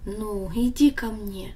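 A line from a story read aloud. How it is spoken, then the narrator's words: Gentle, after long silence. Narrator (Russian): Отец долго молчал, но потом ласково сказал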